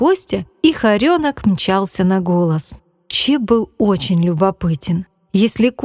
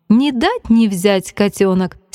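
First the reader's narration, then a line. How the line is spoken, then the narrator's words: Grandmother laughing. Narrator (Russian): смеялась бабушка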